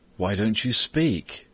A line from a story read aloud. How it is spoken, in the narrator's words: said Simon